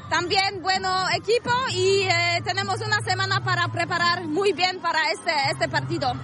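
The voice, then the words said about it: Polish accent speaking Spanish. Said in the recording (Catalan): “parlant castellà, té un accent molt similar al de Robert Lewandowski... Són els polonesos que els hi acaba quedant aquest accent”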